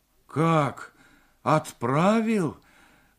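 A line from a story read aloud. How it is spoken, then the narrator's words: Crushed, despairing voice. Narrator (Russian): убитым голосом произнес Морев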